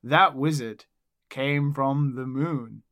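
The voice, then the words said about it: Flat monotone delivery. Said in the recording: “so bad and flat when he delivered”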